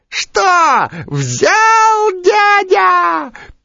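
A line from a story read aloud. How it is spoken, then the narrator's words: Squeaky mosquito voice. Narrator (Russian): пищал комар Комарыч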